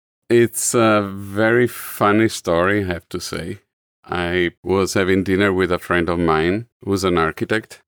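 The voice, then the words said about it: Distinctive foreign accent. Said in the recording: “accent is hard to confuse with anyone else ... the guy with the accent”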